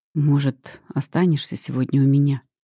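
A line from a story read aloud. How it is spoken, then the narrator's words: Hoarse question. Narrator (Russian): спрашивает хрипло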